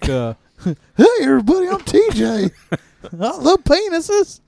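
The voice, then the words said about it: Imitates another person's voice. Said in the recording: “what's your impression of me?”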